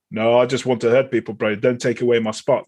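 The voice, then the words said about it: Deliberately poor South African accent. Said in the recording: “That's a dreadful South African accent and not intending to be an accurate impression”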